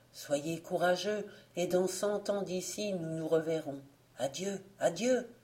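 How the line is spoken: Whispered in ear. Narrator (French): Le vent d'Est lui dit tout bas à l'oreille

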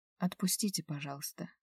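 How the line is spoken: Quiet plea. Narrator (Russian): попросила тихонько

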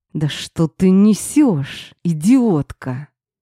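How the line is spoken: Growl through gritted teeth. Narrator (Russian): Сквозь зубы зарычал на меня Стас

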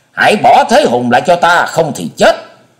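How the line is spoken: Thunderous roar. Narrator (Vietnamese): Hải ma giáo chủ gầm lên như bầu trời chuyển động

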